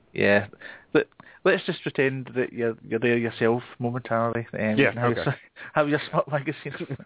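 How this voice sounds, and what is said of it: Scottish Glasgow accent. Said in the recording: “my Scottish accent's not too hard to understand ... I'm kind of central Glasgow ... classic Glasgow accent”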